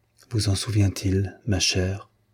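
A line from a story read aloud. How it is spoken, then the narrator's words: Very quiet. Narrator (French): dit-il tout bas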